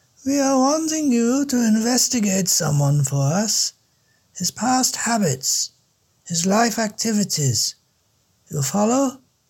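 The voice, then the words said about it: Central European accent, imperfect English. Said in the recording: “The same imperfect English, too. There was an accent daggering through her words. Middle Europa. I could place it pretty precisely somewhere between Hamburg and Vienna.”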